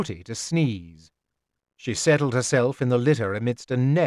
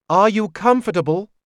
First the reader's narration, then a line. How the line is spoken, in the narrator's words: I asked more loudly